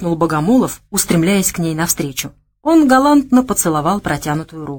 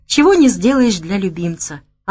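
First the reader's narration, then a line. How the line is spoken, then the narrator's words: Languid sigh. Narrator (Russian): Она томно вздохнула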